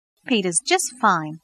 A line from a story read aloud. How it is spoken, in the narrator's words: replied in a cheerful voice